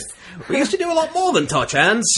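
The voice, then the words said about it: Deliberately bad Scottish accent. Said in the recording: “I can try to do a really bad Scottish accent.”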